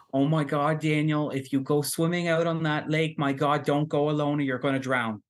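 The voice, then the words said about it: Imitates an older woman's accented voice. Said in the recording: “she was a very Acadian Catholic woman ... Great act, great like, little accent change there.”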